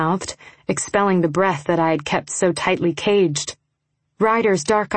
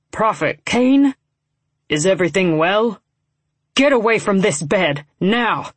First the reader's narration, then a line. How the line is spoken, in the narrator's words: he snarled